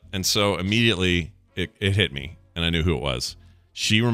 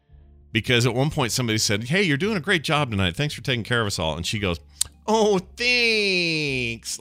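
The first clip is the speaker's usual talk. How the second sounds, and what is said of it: Light Midwestern accent. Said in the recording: “a little Midwestern, North Dakota maybe accent in there”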